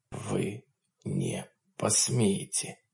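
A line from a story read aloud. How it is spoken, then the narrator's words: Quiet tycoon's voice. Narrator (Russian): тихо сказал магнат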